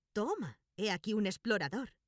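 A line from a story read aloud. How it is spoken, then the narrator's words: Exclaiming. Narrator (Spanish): exclamó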